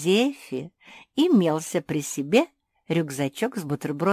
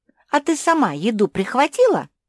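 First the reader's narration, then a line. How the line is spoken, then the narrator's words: Gleeful giggle. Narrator (Russian): Марсия радостно захихикала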